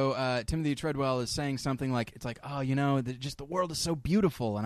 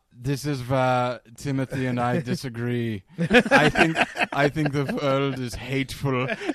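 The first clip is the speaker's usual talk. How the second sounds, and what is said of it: Imitates another person's accented voice. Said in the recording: “Werner Herzog's narration will come in ... it's him with just that accent”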